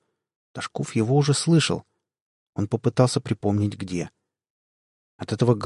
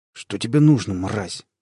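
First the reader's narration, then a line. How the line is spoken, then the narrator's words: Hoarse rasp. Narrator (Russian): прохрипел Егор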